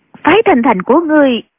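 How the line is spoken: Loud speech. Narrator (Vietnamese): Định Vật lớn tiếng nói

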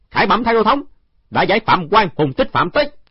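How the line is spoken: Loud. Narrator (Vietnamese): Trương Khang Niên lớn tiếng nói

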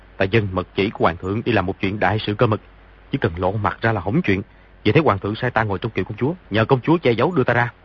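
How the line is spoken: Lowered voice. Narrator (Vietnamese): hạ giọng nói

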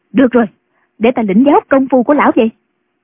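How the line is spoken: Impatient shout. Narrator (Vietnamese): Không nhẫn nại được nữa, bà quát lên

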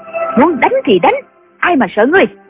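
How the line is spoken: Angry. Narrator (Vietnamese): Nghi Hòa tức giận nói

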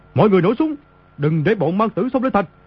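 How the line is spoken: Panicked shout. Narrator (Vietnamese): Y trong lúc hoảng sợ quát lớn

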